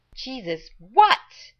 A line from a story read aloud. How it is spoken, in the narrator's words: Rodney yelled from inside